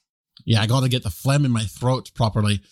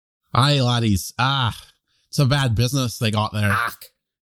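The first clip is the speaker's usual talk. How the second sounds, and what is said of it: Put-on Scottish accent. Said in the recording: “Pretty good Scottish. It's not bad.”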